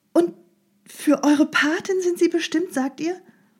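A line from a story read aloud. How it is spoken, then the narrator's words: Called. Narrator (German): rief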